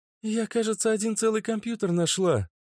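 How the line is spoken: Exclaiming. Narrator (Russian): воскликнула Вика

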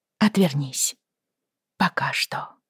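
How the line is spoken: Quiet addition. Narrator (Russian): тихо добавила она

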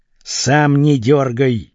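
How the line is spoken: Hissed through clenched teeth. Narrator (Russian): сквозь зубы прошипел капитан

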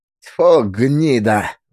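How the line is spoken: Spiteful spitting. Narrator (Russian): злобно плюнул Трифон

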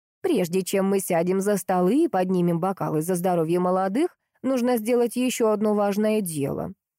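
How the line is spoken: Plain. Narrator (Russian): сказала она

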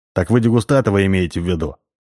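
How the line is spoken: Laughing. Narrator (Russian): рассмеялся, поняв, наконец, шутку Эрик

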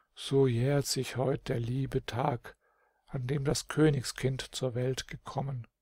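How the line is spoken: Sighing, very soft boyish whisper. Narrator (German): wieder seufzte der Bub und flüsterte ganz leise vor sich hin

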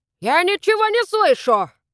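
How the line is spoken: Loud, scaring off ghosts. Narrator (Russian): громко сказал Еспер, чтобы отпугнуть предполагаемых призраков

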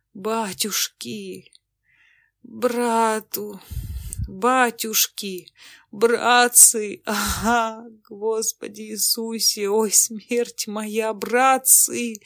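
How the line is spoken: Heart-rending groaning. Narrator (Russian): стонал раздавленный, раздирающим душу голосом

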